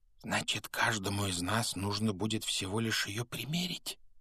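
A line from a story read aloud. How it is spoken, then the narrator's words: Whisper. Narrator (Russian): прошептал Рон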